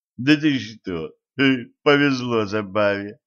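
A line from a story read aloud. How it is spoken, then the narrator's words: Snorting. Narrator (Russian): хмыкнул Кощей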